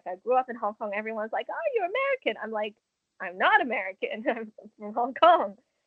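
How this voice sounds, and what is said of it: Fluent English, slightly broken accent. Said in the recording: “I have this weird accent that, sure, it's fluent, you can understand it, but there's also a bit of a brokenness to it, which is coming from the Hong Kong side of it”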